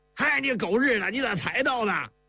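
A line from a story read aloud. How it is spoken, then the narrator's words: Excited, warm calling. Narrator (Chinese): 兴奋起来，嘴里亲热的叫着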